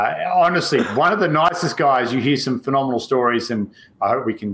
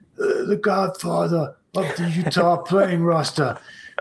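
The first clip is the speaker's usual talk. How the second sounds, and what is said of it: Put-on raspy gangster-boss voice. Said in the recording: “have to put on my raspy voice”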